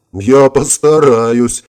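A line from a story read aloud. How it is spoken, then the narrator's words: Chuckling. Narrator (Russian): хохотнул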